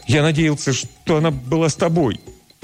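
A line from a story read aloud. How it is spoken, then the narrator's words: Desperate, broken voice. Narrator (Russian): Отчаянным прерывистым голосом Лео признается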